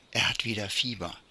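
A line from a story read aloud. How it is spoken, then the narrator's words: Mother whispering. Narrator (German): flüsterte die Mutter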